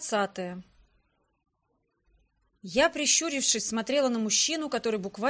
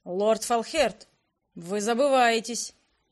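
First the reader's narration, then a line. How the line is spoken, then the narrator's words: Cold imperial statement. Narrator (Russian): холодно произнес император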